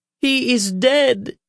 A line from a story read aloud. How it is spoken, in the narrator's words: shouted a smallish gray man with donkey ears